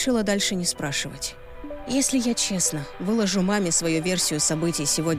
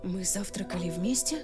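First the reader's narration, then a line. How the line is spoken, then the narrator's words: Mumble. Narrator (Russian): пробормотала я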